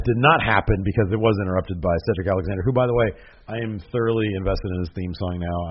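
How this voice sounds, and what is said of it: Strained, nearly lost voice. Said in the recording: “My voice is this close to completely giving out. ... I just felt it in the back of my throat.”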